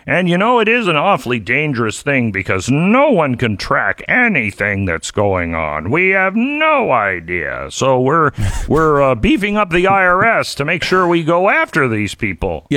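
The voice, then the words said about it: Imitates another person's voice. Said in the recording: “that was your impersonation. ... identical to Janet Yellen.”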